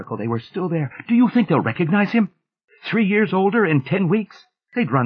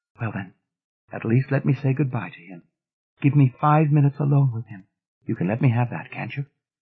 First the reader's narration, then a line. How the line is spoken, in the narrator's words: she said sadly